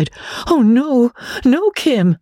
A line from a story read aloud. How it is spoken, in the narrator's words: Magnolia was horrified to find that she had almost cried